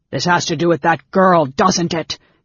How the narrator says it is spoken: Caramon shouted

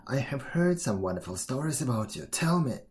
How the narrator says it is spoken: he growled

